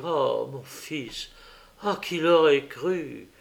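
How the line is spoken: Repeated with a sigh. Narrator (French): il me répétait avec un soupir

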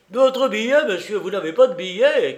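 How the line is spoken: Furious employee shouting. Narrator (French): cria un employé d'un ton furieux

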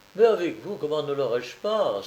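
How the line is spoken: Exclaimed. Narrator (French): s'exclamait l'excellent garçon

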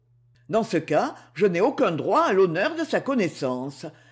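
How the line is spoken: Cold reply. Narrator (French): répondit froidement Claude Forest

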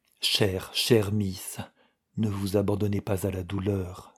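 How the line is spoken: Murmured. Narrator (French): murmura-t-il

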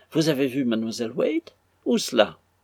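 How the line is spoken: Young mistress exclaiming. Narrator (French): s'écria sa jeune maîtresse

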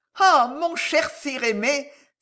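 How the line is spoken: Exclaiming. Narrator (French): s'écria Agnès

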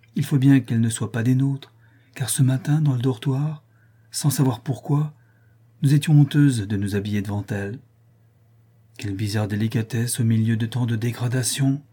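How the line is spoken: Exclaimed. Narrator (French): s'écria madame Darville

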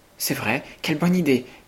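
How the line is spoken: Three girls exclaiming together. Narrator (French): s'écrièrent les trois cousines

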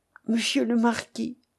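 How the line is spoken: Pleading. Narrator (French): dit-elle d'un ton de voix suppliant

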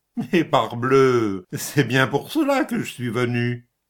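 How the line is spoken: Sneering laugh. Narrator (French): L'autre se mit à ricaner

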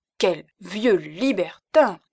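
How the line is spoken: Silly woman exclaiming. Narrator (French): s'écria la cousine bête

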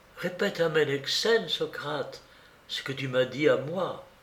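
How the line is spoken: Childlike gentle secret whisper. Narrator (French): Lysis, avec une gentillesse toute enfantine, me dit tout bas en cachette de Ménexène

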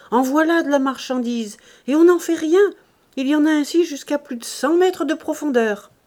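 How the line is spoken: Shouting. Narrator (French): criait-il

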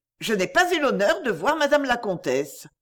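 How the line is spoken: Cold. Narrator (French): dit froidement mademoiselle Cloque

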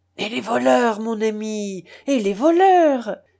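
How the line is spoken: Exclamation. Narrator (French): s'écria l'abbé Chas

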